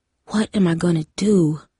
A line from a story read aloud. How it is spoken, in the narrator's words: whispered in the dark